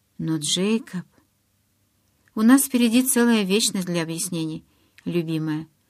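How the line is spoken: Tender. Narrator (Russian): ласково напомнил Эдвард

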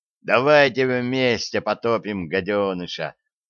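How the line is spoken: Joyful cackle, boy. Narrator (Russian): Радостно гоготнул пацан

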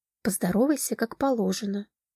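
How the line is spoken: Quiet. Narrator (Russian): Велена негромко сказала

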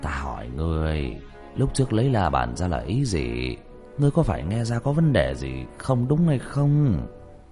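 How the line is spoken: Old man's sigh. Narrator (Vietnamese): Lưu lão nhân thở dài

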